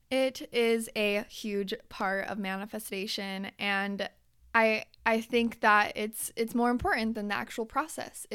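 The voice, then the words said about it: Strained, fading hoarse voice. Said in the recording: “I am losing my voice.”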